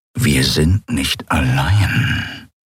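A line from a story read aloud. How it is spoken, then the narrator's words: Growled. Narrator (German): knurrte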